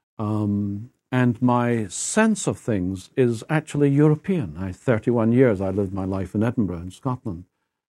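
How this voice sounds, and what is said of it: Scottish accent. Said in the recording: “I speak of God with a Scottish accent. I hope I still do.”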